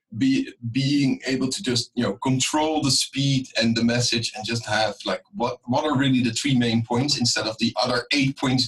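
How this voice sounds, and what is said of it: Dutch accent, non-native English. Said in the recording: “I'm definitely not an English native speaker ... having still my Dutch accents, which probably is quite clear”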